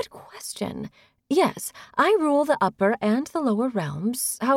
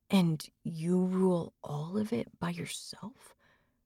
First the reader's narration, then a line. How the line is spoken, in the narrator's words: Connor asked in a soft, awed voice